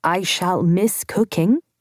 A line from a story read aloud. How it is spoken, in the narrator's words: I said slowly